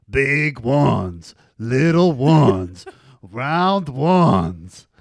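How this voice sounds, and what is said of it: Al Pacino impression. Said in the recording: “your impression of Al Pacino”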